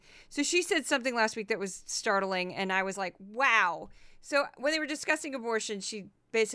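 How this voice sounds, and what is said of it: Usual voice. Nothing is said of it.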